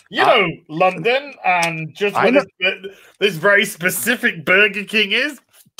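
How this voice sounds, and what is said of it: Northern English accent. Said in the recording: “I'm a Northerner. ... Of course you are with that accent.”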